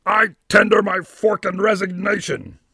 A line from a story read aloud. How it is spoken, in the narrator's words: Juke shouting